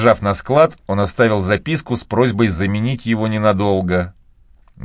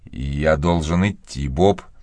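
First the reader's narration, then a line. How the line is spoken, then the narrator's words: Plain. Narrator (Russian): сказал он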